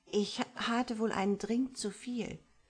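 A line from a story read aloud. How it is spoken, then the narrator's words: Stammered. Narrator (German): stammelte sie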